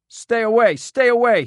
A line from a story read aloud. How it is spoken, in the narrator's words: he screamed